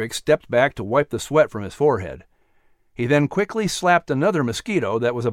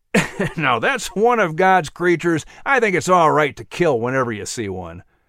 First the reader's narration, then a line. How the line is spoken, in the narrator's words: Langlu said with a laugh